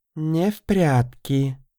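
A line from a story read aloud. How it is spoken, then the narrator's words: Thoughtful drawl. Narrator (Russian): задумчиво протянула первая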